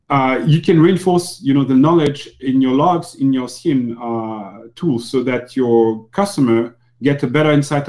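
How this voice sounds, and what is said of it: Non-native English accent. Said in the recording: “my accent might not be understandable for Americans”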